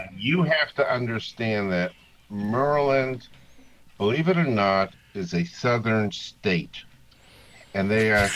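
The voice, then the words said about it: Massachusetts accent. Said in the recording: “Being from Massachusetts and having my accent ... I talk funny, too.”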